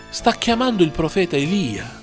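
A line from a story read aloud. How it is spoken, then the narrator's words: Several bystanders exclaiming. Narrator (Italian): Alcuni dei presenti esclamarono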